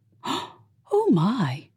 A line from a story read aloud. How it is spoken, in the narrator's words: Ruth gasped